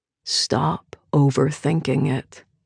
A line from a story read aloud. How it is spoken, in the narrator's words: he says quietly